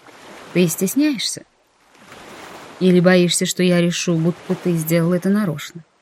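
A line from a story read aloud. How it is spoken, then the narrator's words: Very calm. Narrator (Russian): очень спокойно уточнил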